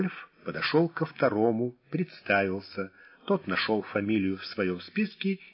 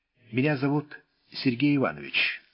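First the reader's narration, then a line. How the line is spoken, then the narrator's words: Plain, young man. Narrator (Russian): сказал молодой человек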